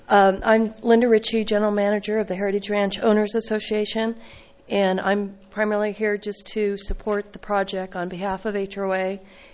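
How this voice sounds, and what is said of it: Congested voice with a cold. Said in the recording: “Sorry, I have a cold.”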